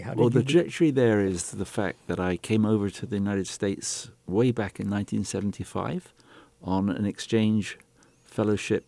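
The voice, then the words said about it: British accent. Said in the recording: “I could detect a British accent. ... Yes, that's correct.”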